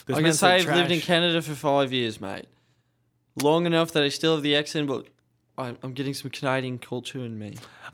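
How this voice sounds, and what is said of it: Put-on Australian accent. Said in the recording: “pretend to be an Australian for Melbourne ... You're speaking in the Australian accent”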